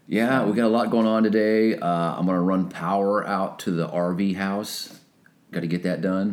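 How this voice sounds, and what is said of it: Hoarse, deep voice. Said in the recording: “We both sound really hoarse. ... I'm really hoarse. I have a deep voice.”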